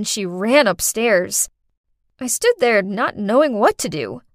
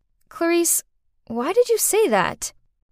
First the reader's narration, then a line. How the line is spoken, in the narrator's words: calmly said